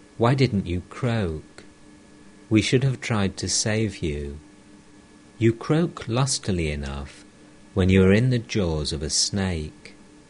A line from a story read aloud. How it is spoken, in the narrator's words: said to the frog in a sorrowful voice